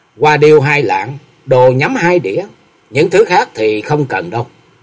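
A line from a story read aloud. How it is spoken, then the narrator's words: Smiling young woman. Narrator (Vietnamese): Bạch y thiếu nữ mỉm cười nói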